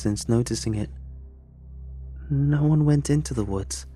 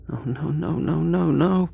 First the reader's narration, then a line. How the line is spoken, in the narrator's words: muttered, all hyperventilating